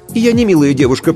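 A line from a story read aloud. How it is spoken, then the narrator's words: Habitual snap. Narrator (Russian): привычно огрызнулась Аиша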